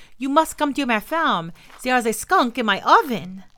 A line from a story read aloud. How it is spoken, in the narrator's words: cried out